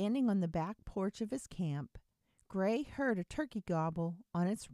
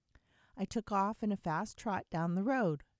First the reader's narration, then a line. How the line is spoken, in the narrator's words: Gray said